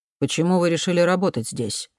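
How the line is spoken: Plain question. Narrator (Russian): спросил Дэвис

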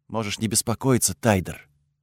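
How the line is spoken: Quiet. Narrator (Russian): тихо ответила она

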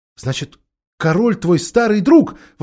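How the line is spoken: Exclaimed. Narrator (Russian): воскликнула Джилл

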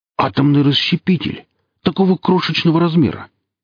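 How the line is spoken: Amazed exclamation. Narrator (Russian): изумленно воскликнул Велес

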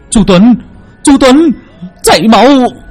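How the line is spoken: Scream. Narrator (Vietnamese): Bác Mộng gào lên

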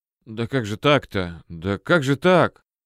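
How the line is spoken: Stunned, quiet repetition. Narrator (Russian): Рене так от вести такой побледнел, даже побелел, и застыл, лишь повторяя то и дело тихо, никому лично не обращаясь

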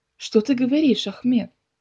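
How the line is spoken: Exclaimed. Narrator (Russian): воскликнул

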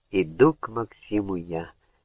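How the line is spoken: Barely audible singing. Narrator (Russian): еле слышно пела она

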